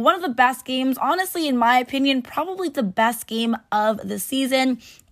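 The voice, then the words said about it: Raspy, strained voice. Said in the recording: “my voice is a little raspy, kind of lost it because I was actually at the game last night”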